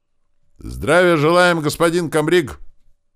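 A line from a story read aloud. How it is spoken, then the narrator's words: Thunderous bark of thousands. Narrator (Russian): рявкнула в ответ тысячная рать, так что аж птицы шарахнулись во все стороны в окрестных лесах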